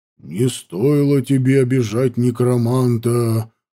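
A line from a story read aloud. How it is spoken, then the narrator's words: Sinister voice. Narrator (Russian): зловещим голосом сказал я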